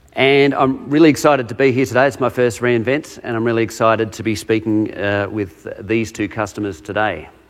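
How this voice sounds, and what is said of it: Australian accent. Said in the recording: “I'm a solutions architect out of Australia, if you can't tell from my accent.”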